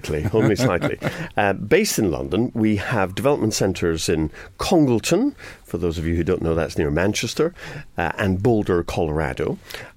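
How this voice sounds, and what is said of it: Scottish accent. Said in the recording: “despite the accent ... Are you Scottish?”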